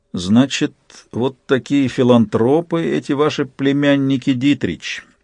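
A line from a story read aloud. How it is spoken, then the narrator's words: Through gritted teeth. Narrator (Russian): сквозь зубы сказал Сварог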